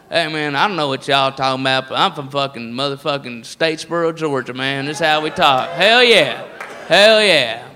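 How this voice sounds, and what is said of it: Put-on redneck accent. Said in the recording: “the redneck voice is all over the place ... That's your accent.”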